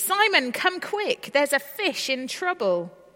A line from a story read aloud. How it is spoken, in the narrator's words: Tiffany's voice called out anxiously